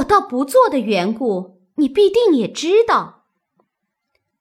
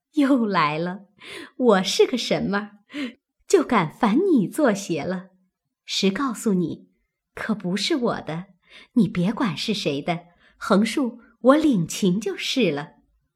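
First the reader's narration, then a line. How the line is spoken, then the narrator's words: Laughing. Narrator (Chinese): 袭人笑道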